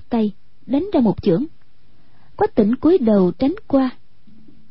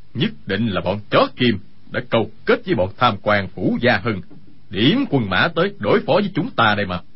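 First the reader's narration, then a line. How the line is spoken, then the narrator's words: Angry. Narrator (Vietnamese): Dương Sự Nhất tức giận nói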